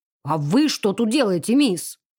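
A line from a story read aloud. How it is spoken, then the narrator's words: Sharp shout, grunting. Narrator (Russian): прикрикнул он, с кряхтением поднявшись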